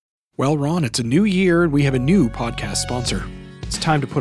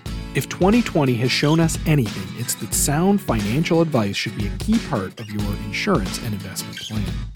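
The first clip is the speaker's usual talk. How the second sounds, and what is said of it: Polished professional announcer voice. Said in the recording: “put on my professional voice”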